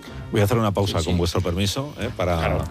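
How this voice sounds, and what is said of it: Very serious, formal interviewer tone. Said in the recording (Spanish): “estás poniendo una voz muy seria todo el rato ... ¿Qué tono es este? ... Es un tono de respeto. ... Es un tono como si estuviéramos entrevistando.”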